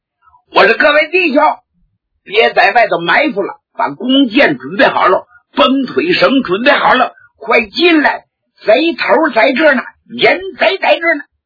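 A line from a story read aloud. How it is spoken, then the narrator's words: Shouting. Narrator (Chinese): 江凡灵机一动，有主意了，他就喊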